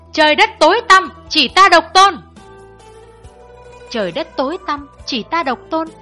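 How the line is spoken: Loud shouting. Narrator (Vietnamese): miệng thì cao giọng hét

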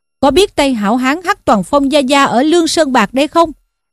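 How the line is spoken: Shouting. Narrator (Vietnamese): hảo hán quát lên rằng

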